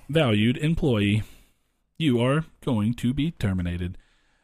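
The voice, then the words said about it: Robotic voice. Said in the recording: “I sound like a robot.”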